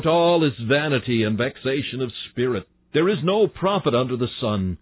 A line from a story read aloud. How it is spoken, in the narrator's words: Solomon ate thereof, till he cried out